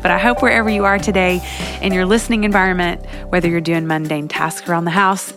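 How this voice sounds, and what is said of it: Slightly congested, sniffly voice. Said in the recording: “I have the sniffles a little bit today ... allergy mania ... hear that in my voice a little bit”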